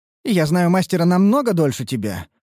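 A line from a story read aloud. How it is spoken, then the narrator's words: Snorting. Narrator (Russian): фыркнула Лейтарис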